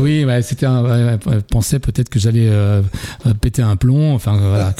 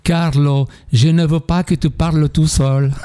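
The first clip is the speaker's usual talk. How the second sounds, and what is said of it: Mimicked Italian accent. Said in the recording (French): “Avec l'accent italien.”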